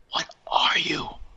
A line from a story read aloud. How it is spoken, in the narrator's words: I gasped